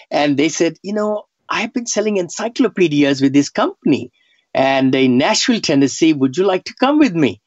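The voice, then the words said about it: Indian-accented English. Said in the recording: “I had just come from India, couldn't speak much. My accent, I still have accent. back then, nobody could understand me.”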